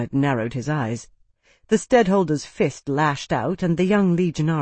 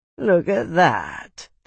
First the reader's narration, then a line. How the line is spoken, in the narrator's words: the unshaven one drawled